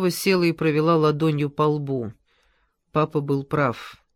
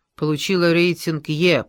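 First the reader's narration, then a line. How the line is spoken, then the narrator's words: Growling. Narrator (Russian): прорычала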